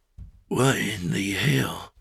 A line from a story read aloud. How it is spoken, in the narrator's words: He said softly